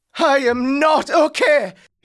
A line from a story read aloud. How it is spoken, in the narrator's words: He shouted